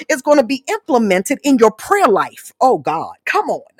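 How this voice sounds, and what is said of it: Yelling loudly. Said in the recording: “I'm yelling in y'all ear.”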